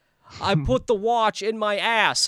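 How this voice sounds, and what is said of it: Bad Christopher Walken impression. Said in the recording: “I could do Christopher Walken. ... It's like the worst Christopher Walken impression.”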